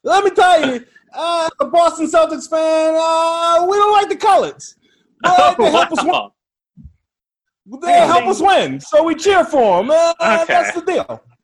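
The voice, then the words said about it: Attempted Boston accent. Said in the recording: “I really can't do a Boston accent, so I'm gonna try to do something.”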